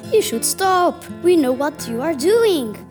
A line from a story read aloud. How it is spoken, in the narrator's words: shouts Winky